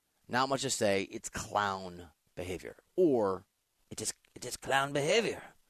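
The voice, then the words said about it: Poor French accent, like Pepe Le Pew. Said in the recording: “I can't do a French accent. ... You sound just like Pepe Le Pew.”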